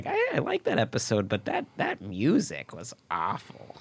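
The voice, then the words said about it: Shrewish impression of a mother. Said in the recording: “your impression of your own mother... I don't know why you would make her sound like a shrew”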